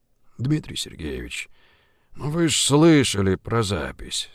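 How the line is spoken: Sighing. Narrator (Russian): вздохнула Жигулин

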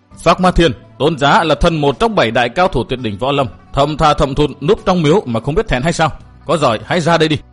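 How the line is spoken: Shaken, loud. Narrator (Vietnamese): Chàng rung động toàn thân, lớn tiếng nói

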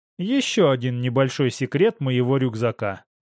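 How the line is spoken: Plain. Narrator (Russian): ответил я

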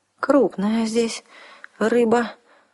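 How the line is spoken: Trembling voice. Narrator (Russian): дрогнувшим голосом заметила Арсана

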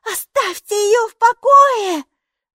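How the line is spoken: Screaming. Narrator (Russian): вопила Майки

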